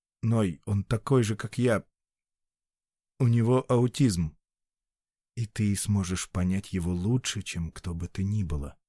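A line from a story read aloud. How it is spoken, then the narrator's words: Quiet. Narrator (Russian): тихо ответил Ной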